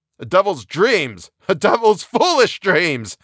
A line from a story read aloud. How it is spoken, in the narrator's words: he cried with a vicious laugh